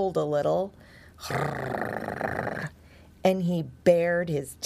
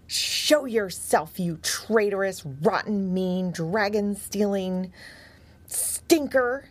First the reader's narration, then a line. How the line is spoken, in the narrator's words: he barked angrily